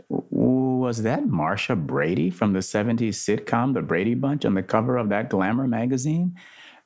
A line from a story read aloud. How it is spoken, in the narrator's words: Andrew chuckled to himself